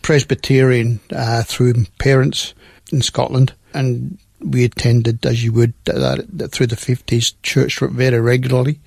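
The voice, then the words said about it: Scottish accent. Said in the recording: “obviously, by the accent, I'm Scots.”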